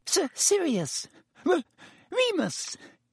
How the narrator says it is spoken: Pettigrew's voice was squeaky

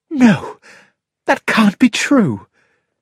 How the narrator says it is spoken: gasped Mary

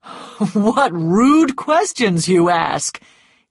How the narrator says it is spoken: said, laughing

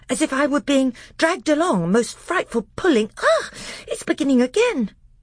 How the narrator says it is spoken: said Edmund in a breathless voice

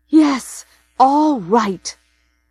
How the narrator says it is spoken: she says furiously

